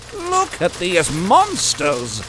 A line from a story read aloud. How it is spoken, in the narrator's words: Edward shouted over the racket of metal hitting stone